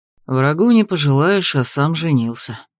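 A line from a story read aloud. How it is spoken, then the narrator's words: Muttered under breath. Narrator (Russian): буркнул под нос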